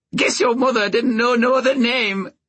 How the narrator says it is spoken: Bennis said, cackling

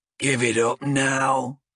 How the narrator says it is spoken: grunted the Duardin

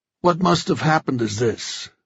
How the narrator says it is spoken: Joe said in a heavy voice

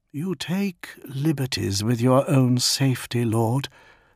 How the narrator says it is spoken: murmured Yutun

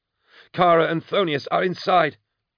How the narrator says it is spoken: Plighton gasped

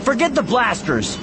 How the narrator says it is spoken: shout into the intercom

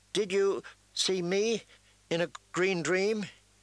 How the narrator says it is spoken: He asked Jojen nervously

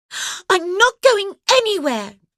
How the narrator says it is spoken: Joe cried defiantly

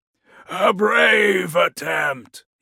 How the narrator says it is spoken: he called out

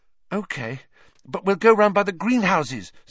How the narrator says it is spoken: said Hermione breathlessly

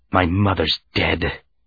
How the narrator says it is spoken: he whispered

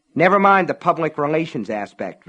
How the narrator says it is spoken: Van Allen came back harshly

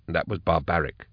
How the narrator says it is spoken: he said quietly

